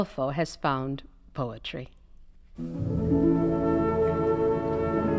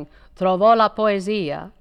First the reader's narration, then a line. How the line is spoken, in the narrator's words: Marcello in the distance shouting